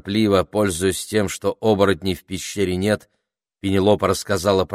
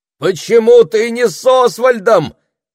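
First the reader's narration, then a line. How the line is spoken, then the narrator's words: Shout. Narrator (Russian): закричал Саймон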